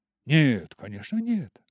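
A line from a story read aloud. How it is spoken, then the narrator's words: Exclamation. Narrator (Russian): воскликнул Дориан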